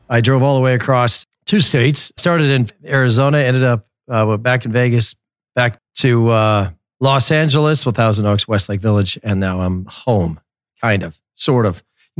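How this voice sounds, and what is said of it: Tired, worn-out voice. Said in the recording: “You can tell by my voice, I've had one hell of a weekend ... I am so tired.”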